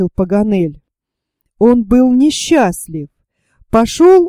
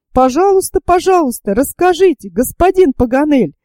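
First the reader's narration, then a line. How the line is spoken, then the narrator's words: Exclamation. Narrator (Russian): воскликнул Роберт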